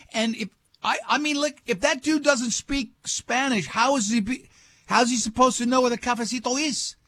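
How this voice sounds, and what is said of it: Slips into a put-on accent. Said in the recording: “I fell right into the accent.”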